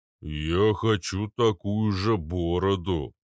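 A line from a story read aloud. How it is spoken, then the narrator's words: Deep bass voice. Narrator (Russian): пробасил Арнольд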